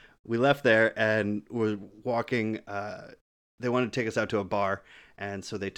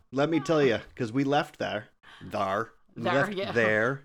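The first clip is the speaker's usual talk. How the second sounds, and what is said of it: Slipping into a New England accent. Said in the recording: “Sorry, I've been with my New England family, so the accent happens.”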